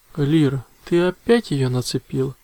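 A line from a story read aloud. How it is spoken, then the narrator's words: Sigh. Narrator (Russian): вздохнул человек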